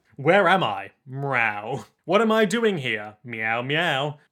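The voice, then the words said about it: Smooth narrator voice. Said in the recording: “in his smooth narrator voice”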